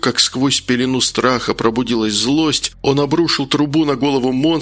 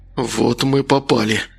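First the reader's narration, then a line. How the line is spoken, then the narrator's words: Exhaled. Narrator (Russian): выдохнул Макар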